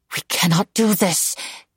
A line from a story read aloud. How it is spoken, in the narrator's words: she muttered